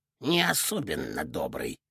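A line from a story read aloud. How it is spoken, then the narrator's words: Grumbled. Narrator (Russian): проворчал Борисыч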